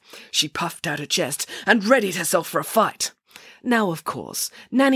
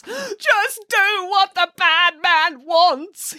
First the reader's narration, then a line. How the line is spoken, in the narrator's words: pleaded in between racking sobs